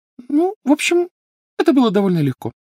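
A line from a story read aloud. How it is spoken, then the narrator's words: Thin high voice. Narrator (Russian): тонким голосом сообщила Гермиона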